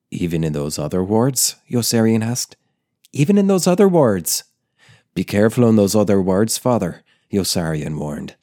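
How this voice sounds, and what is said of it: Put-on Irish accent, reading aloud. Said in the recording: “what if I tried to do an Irish accent, but with different voices?”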